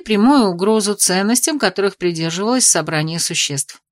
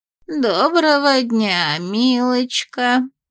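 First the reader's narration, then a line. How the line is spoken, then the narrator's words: Old woman's quavering screech. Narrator (Russian): проскрежетала дребезжащим голосом старушка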